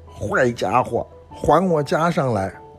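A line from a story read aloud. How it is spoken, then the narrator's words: Loud shout. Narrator (Chinese): 悟空大声地喊说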